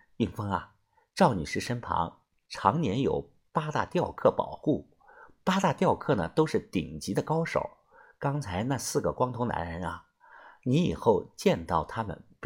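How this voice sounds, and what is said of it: Whispered, hushed voice. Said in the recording (Chinese): “小声的介绍的说”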